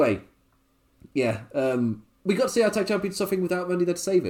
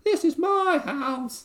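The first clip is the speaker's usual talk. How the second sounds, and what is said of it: British accent, granny-like character voice. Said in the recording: “British Omos... but with ... voice... why does my voice sound like a granny character?”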